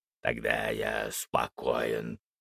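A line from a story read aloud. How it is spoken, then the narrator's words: Half-joking growl. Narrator (Russian): полусерьезно, полушутя прорычал Фенрис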